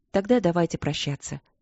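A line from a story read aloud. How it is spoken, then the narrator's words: Polite, gentle queen. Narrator (Russian): вежливо и мягко произнесла ее величество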